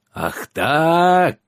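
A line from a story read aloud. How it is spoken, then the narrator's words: Howling. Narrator (Russian): взвыл Гавр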